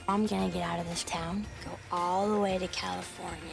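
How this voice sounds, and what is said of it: Bad put-on Georgia accent. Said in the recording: “bad Georgia accents. Yeah. Are bad.”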